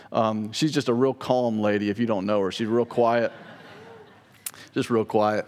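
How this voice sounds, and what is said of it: Sarcastic delivery. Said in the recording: “know I'm being sarcastic.”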